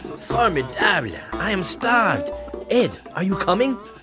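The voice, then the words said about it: French-accented English. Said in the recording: “It's the French accent.”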